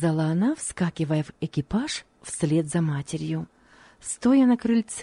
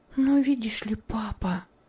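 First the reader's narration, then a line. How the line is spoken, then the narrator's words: Whispered. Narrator (Russian): сказала она шепотом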